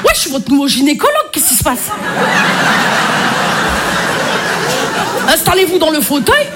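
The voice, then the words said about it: Marseille French accent. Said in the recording (French): “Je m'y connais en accent, je suis marseillaise ... l'accent marseillais”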